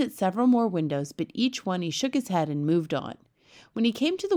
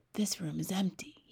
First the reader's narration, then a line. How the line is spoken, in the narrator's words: he whispered